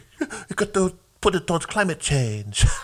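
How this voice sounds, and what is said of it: Imitates another person's voice, poorly. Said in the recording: “worst Greta Thunberg impression”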